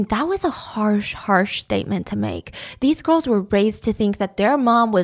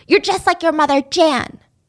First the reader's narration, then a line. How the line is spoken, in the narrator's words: Grandma would yell at her